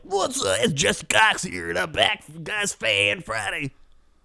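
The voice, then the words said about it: Imitates another person's voice. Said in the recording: “you can't do the voice... not an imitationer... Even when I do you”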